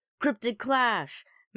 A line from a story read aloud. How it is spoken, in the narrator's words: Max exclaimed excitedly